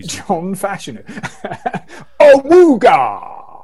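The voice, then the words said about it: Imitates another person's voice. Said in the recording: “do a great impression of that... Can we have a John Fashanu impression, please?... you've always done that really well”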